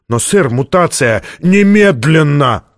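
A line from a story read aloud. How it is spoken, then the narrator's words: Shouted. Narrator (Russian): крикнул Стратмор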